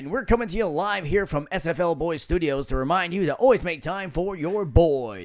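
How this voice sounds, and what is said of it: Deep radio DJ voice. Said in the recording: “With a deep voice. ... We're going to hit you live from the top of the hour with a radio DJ voice”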